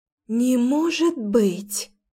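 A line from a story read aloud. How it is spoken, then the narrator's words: Admiring breathless exclamation. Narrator (Russian): Восхищенно выдохнула Дарина, невеста Ричарда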